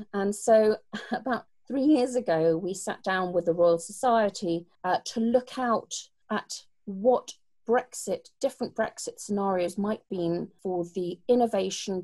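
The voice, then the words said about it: British English accent. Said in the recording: “you can probably tell by my accent that I'm British”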